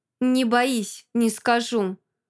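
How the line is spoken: Through gritted teeth. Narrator (Russian): Снова цедит сквозь зубы Арт

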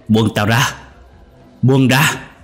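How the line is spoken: Struggling, shouting. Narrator (Vietnamese): ông Tích, ông vùng vẫy la hét

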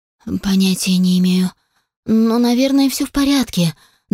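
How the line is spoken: Trembling voice. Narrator (Russian): дрожащим голосом ответила Сара

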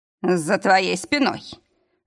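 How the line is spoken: Strained wheeze. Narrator (Russian): сдавленно просипел друг

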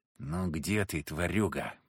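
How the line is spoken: Whisper. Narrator (Russian): прошептал я

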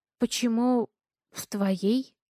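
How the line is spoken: Stammering question. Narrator (Russian): Запинаясь, спрашиваю я

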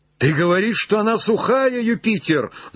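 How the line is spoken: Broken, shouting voice. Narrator (Russian): закричал Легран прерывающимся голосом

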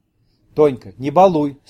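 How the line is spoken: Stern interruption. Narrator (Russian): строго оборвала ее Евдокия

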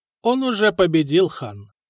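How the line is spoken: Calm. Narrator (Russian): спокойно сказал Бури

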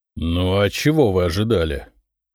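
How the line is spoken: Reluctant grumble. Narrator (Russian): неохотно проворчал Никита Михайлович

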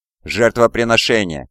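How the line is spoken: Hoarse rasp. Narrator (Russian): хрипит он

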